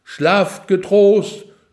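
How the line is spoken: Loud, clear, from above. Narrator (German): laut und klar vom Turm herab

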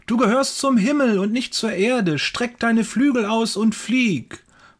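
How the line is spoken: Calling out. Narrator (German): ruft

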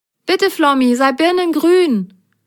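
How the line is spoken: Calling out. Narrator (German): rief Grasgrün

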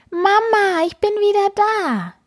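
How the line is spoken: Happy little cat calling. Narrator (German): ruft der kleine schwarze Kater glücklich

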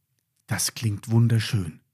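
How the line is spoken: Murmured. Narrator (German): murmelte Lilly

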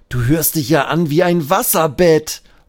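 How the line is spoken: Laughing call. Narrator (German): ruft Benjamin lachend

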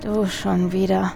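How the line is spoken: Tired murmur. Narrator (German): murmelte er müde

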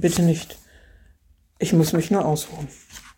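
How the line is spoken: Groan. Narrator (German): stöhnte er

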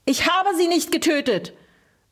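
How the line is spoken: Frantic roar. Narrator (German): brüllte Pimpf vollkommen von Sinnen

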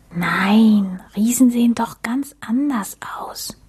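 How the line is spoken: Whisper. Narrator (German): flüsterte Max

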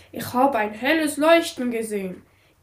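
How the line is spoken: Sudden call. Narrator (German): rief er auf einmal

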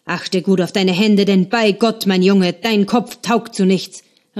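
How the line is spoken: Calling after someone. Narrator (German): rief Andrea seinem Sohn hinterher

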